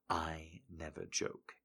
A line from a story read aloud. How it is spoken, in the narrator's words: he whispers